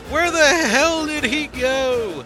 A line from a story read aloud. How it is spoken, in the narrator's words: Knuckle yells